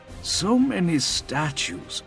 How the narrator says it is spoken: Peshik murmured

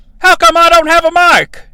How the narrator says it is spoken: JR says, loudly enough for King's mic to pick it up

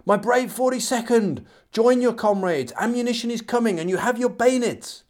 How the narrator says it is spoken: Moore shouting

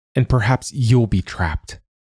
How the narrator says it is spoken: she snapped back

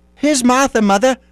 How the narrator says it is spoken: cried the two young Cratchits

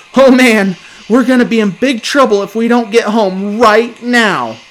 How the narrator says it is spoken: As understanding grasped my mind, I leapt to my feet and shouted

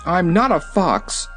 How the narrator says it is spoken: cried Button Bright

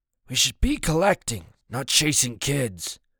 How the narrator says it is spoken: a man says, his voice hoarse

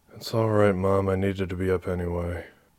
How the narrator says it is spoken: she mumbled

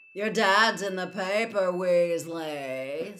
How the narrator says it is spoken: said Malfoy, speaking very loudly so that everyone in the packed entrance hall could hear

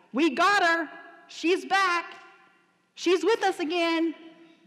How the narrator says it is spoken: I heard the ICU team yelling things like

